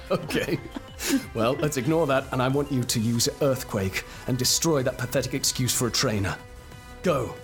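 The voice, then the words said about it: Deeper, gruff dramatic character voice. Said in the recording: “voice has gone a lot deeper. ... Is ... that gruff ... You're doing a voice. Is this your new Pokemon trainer voice? ... my epic I'm down to my last Pokemon voice”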